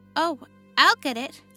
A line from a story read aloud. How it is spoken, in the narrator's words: cried